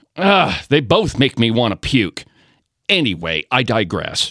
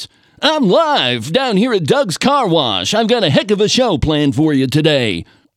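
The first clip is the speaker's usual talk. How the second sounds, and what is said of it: Exaggerated radio announcer voice. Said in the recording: “the dumb radio announcer voice ... he tries to make every single syllable that he says the most profound thing that you've ever heard”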